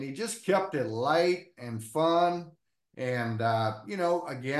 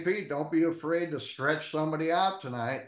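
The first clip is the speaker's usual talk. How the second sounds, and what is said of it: Put-on West Virginia accent. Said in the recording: “he's got that West Virginia accent”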